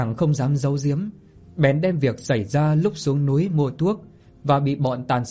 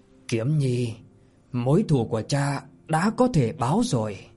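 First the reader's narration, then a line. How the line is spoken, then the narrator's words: Joyful, smiling. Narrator (Vietnamese): Bạch Diện Lăng Quân đôi môi thì lộ ra một nụ cười khẽ động, đôi mày thì lộ ra vẻ vui mừng mà nói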